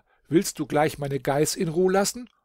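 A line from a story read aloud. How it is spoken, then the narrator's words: Shouted. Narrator (German): rief er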